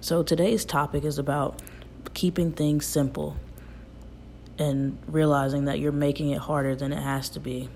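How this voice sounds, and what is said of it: Slightly raspy voice. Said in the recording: “I wanted to apologize from the beginning for my voice. I know it's a little bit raspy”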